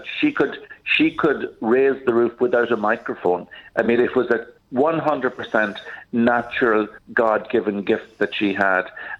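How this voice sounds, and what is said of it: Irish accent. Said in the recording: “when you talk as a priest with an Irish accent ... Yeah, I can't hide it.”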